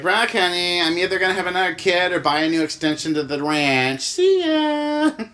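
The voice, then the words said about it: Imitates another person's voice. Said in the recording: “my bad impersonation”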